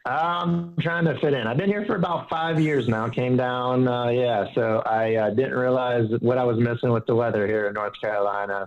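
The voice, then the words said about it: Southern American accent. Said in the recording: “I could hear this Southern accent,”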